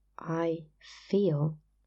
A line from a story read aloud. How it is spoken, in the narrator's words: he said, slowly and clearly